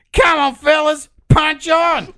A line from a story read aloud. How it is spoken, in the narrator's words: yelled a racist comment in response